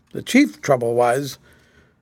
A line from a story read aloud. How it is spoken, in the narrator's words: said Grant solemnly